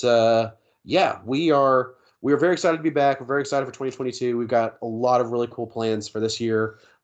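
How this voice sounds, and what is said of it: Nasal, congested voice. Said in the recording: “my voice sounds a little odd. I am just now getting over a cold... I know I'm going to sound pretty nasally on this one.”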